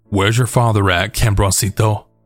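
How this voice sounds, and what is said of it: Thick Spanish accent. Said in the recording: “in a very thick Spanish accent.”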